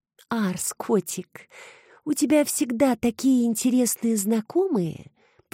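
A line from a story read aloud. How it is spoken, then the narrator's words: Cooing. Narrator (Russian): проворковала красавица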